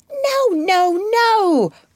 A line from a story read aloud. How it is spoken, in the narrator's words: cried Mrs